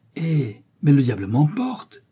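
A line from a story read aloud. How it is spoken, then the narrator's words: Exclamation. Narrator (French): s'écria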